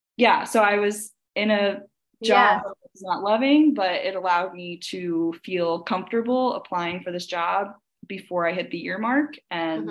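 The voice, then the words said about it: Hoarse, strained voice. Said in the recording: “I'm definitely losing my voice.”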